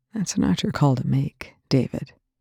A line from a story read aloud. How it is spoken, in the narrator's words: Young said quietly